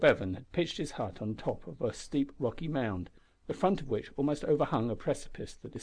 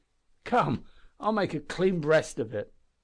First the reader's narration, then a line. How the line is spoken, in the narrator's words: he exclaimed more cheerfully